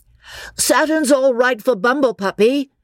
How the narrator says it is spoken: cried Freddy

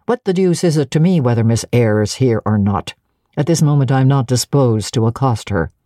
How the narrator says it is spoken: said he, in the impatient yet formal tone

